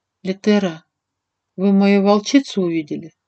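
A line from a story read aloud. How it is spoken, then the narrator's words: Very quiet question. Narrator (Russian): спросила очень тихо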